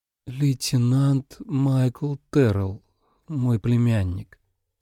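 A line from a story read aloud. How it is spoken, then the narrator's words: Slow, rote reply. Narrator (Russian): медленно ответила Хелен, слово в слово повторив то, что говорила уже много тысяч раз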